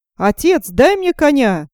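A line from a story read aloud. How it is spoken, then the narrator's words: Shout. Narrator (Russian): закричал Ганс Чурбан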